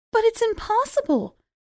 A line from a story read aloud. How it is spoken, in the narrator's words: Cinderella cried